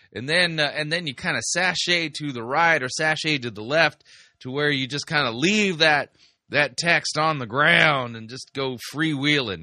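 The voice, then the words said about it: Attempted Texas accent. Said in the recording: “that's my attempt at a Texas accent.”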